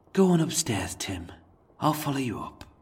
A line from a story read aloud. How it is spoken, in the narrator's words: taking a lengthy breath, he sighed and softly uttered